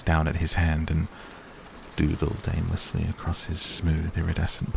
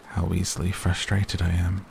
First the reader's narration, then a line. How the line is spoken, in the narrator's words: he sighed